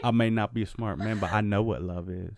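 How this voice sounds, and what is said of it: Forrest Gump impression. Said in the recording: “my Forrest Gump impression ... how he says Jenny”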